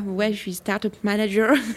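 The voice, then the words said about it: Mock English accent. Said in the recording (French): “je prends l'accent anglais”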